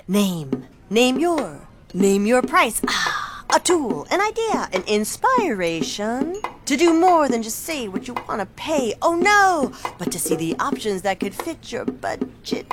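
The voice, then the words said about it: Beat poet character voice. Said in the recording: “my impression of a beat poet”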